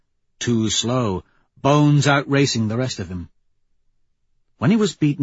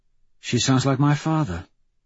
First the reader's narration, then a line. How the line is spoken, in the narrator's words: Mustang says softly